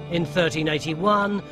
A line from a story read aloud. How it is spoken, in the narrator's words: the people snapped